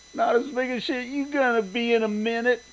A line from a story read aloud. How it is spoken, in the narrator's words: Leroy cackled